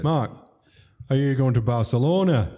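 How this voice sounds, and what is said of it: Put-on Yorkshire accent. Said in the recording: “in a Yorkshire accent, which I won't try. Actually, I'm going to do it.”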